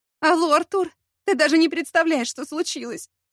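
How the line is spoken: Sobbing. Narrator (Russian): всхлипнула она

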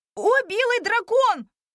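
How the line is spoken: Excited shout from a restless child. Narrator (Russian): закричал непоседа

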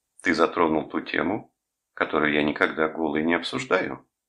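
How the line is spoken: Very serious tone. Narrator (Russian): самым серьезным тоном ответила она

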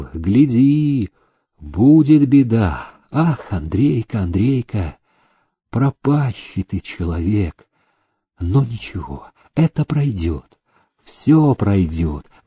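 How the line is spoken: Sighing. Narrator (Russian): вздохнул он

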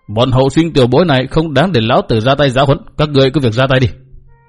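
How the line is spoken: Cold. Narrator (Vietnamese): Mạc Nam Lão Ma lạnh lùng nói

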